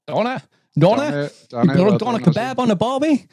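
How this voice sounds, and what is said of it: Poor put-on Australian accent. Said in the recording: “the worst Australian accent in the world”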